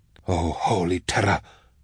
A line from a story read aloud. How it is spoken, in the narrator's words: Garifar gasped